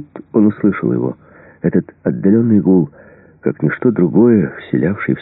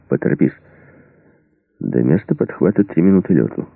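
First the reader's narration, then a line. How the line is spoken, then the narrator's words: Plain. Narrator (Russian): сказал Эриксон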